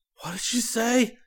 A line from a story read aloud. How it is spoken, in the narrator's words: panted